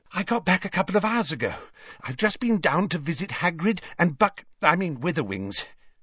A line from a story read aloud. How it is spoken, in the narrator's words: she said breathlessly